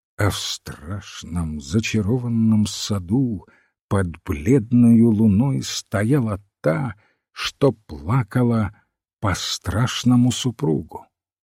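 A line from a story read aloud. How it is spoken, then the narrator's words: Priest muttering. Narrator (Russian): священника бормочет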